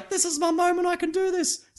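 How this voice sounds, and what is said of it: Imitates a girl's voice. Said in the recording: “that's my girl voice”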